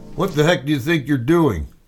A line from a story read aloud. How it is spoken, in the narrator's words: he called out